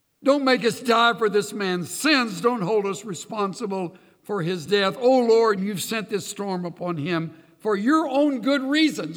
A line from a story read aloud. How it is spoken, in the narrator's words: they plead